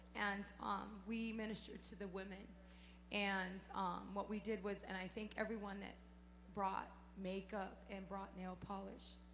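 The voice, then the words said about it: Hoarse, strained voice. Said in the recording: “excuse my voice, I lost it”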